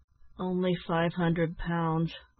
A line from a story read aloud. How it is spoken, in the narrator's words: replied Ned with a sigh